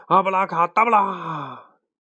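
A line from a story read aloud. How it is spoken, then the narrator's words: Loud shout. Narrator (Chinese): 他大喊一声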